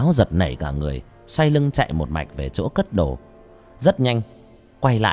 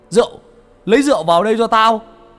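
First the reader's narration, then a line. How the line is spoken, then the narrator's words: Shouting demand. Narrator (Vietnamese): Có tiếng A Vàng hét lên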